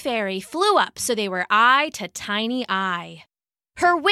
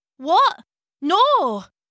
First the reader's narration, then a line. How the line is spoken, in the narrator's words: the boy stammered